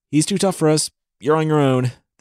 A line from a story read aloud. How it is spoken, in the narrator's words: the fairy yelled